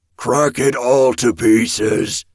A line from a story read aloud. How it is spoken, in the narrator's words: the ogre bellowed